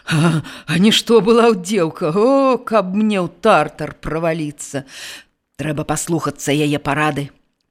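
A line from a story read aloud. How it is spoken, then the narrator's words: Gloomy old man. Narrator (Belarusian): панура сказаў стары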